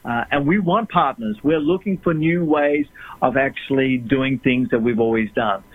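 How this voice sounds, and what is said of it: Australian accent. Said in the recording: “I noticed that you carry with you an accent ... I'm an Australian”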